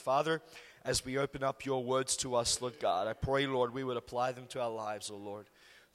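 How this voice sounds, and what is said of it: Strained, worn-out voice. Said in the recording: “I apologize for my voice. ... I couldn't speak until I'd had a shower ... we'll see how my voice holds up.”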